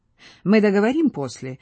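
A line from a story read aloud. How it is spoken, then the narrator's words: Cheerful. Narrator (Russian): весело сказал Вальдемар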